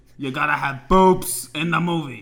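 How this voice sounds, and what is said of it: Mobster producer character voice. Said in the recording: “the producer with the mobster voice ... My voice is no longer a mobster.”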